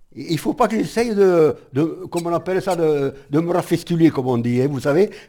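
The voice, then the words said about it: Speaks French with a regional accent. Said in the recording (French): “Mon accent, c'est le mien, c'est le mien.”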